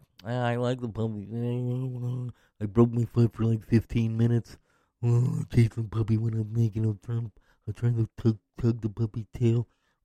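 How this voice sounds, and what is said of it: Imitates another person's voice. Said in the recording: “That's my impression of Joe Biden, because I'm not an impressionist”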